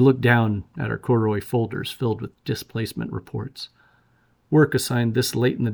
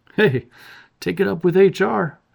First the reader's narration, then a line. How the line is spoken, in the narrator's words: he laughed, pressing his tongue against his teeth